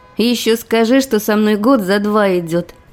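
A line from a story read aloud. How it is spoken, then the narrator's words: Ironic snort. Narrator (Russian): хмыкнула иронично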